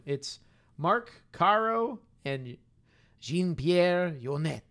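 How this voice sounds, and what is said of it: Attempted French accent. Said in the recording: “That's my attempt at a French accent.”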